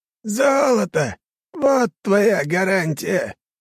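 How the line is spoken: Creaky rasp. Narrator (Russian): проскрипел Седой

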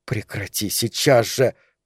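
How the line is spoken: Hissed. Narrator (Russian): прошипела Сара

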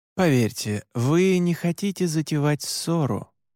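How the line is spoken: Soft. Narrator (Russian): мягко сказал я

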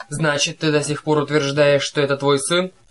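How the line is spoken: Menacing question. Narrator (Russian): грозно спросил Зевс

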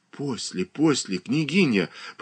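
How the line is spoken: Whispered. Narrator (Russian): прошептала Катерина Александровна

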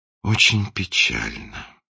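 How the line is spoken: Sighing prince. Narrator (Russian): вздохнул принц

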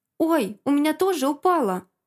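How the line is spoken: Exclaiming. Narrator (Russian): Воскликнул Игнат

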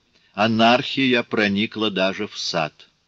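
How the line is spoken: Grumbled. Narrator (Russian): проворчал он

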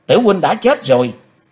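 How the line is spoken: Screaming. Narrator (Vietnamese): Trong tiếng thét

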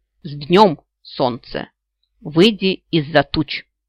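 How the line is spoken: Boy, solemn and loud. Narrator (Russian): мальчик произнес торжественно и громко

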